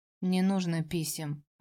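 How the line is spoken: Dry tone. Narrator (Russian): обозначила сухим тоном

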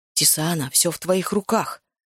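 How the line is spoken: Quiet speech. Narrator (Russian): тихо произнес Макс

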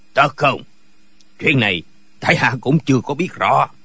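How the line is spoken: Smiling. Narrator (Vietnamese): Kế Vô Thì mỉm cười nói

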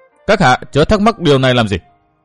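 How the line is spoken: Cold voice. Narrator (Vietnamese): Thiết Tâm Nhân nói giọng lạnh lùng

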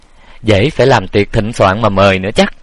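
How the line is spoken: Sarcastic, dry laugh. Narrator (Vietnamese): Quản gia cười nhạt mỉa mai

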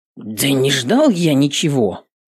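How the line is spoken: Guard's ashamed grumble. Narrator (Russian): пристыженно проворчал стражник

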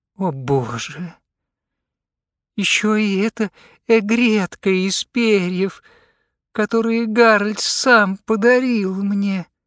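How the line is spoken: Moan. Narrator (Russian): простонала она

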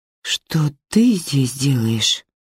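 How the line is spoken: Dull, lifeless question. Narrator (Russian): спрашивает Нина потухшим голосом

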